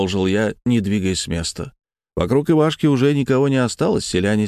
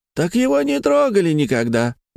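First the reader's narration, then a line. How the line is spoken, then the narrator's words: Shouted out. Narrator (Russian): выкрикнул кто-то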